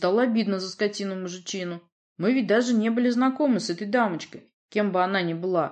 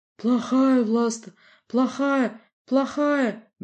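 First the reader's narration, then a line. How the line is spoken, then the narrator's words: Persistent whimpering. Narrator (Russian): не унимаясь, скулила Варвара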